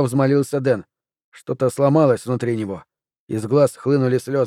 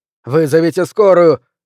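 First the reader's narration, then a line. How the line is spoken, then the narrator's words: Shouting. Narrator (Russian): закричал он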